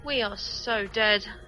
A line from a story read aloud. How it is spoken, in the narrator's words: Alice sighed